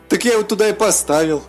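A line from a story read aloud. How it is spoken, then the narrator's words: Laughing dragon. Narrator (Russian): засмеялся дракон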